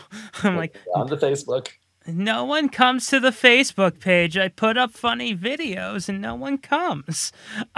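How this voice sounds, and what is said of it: Old Jewish mother voice. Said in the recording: “I sound like an old Jewish mom ... I sound like my bubby.”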